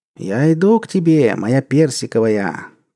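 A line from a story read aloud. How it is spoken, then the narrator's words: Cooing. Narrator (Russian): проворковал спустивший штаны Чернобровин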